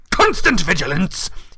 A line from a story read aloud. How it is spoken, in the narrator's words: he barked